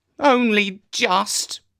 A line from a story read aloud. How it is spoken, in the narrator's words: said Jeremy sulkily